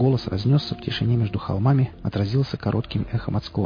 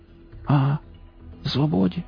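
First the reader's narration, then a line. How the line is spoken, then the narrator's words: Wheezing. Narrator (Russian): хрипнул кипяток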